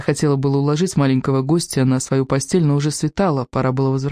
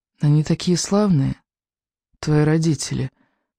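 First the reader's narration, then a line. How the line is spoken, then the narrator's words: Sleepy mumble. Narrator (Russian): сонно пробормотал лунный диск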